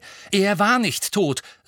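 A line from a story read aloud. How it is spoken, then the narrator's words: Angry. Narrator (German): sagte Harry zornig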